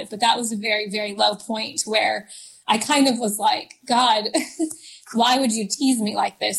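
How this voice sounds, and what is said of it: Emotional, choked-up voice. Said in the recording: “I'm getting emotional just talking about it”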